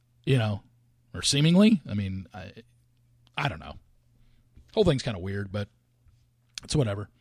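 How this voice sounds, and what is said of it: Hoarse, voice giving out. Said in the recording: “excuse me, losing my voice.”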